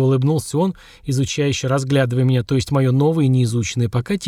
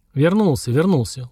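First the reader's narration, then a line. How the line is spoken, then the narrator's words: Weary agreement. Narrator (Russian): устало согласился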